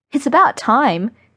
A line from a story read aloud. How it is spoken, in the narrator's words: Meg exclaims